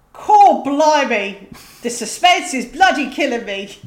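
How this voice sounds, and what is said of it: Put-on Cockney accent. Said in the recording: “it needs a Cockney accent ... I'll certainly provide that”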